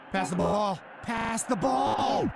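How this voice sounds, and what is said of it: Distorted evil robot voice. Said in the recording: “make you sound like an evil robot... You're not an evil robot”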